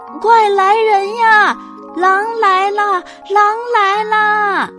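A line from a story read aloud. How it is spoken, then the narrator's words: Child shouting. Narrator (Chinese): 孩子的叫喊声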